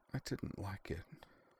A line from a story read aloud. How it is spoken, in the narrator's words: tears slipping down her tanned cheeks, and whispered